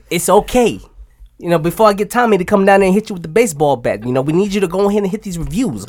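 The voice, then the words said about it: Shifting put-on accent, maybe New Jersey. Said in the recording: “What accent is it? ... He's going all over. He's flipping. ... Jersey accent or something. ... One star for that accent.”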